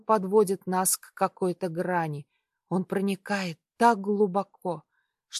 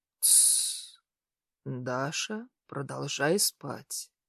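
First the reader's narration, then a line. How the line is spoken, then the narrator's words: Husky, resonant voice near ear. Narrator (Russian): Хриплый голос над моим ухом отдается вибрацией в широкой груди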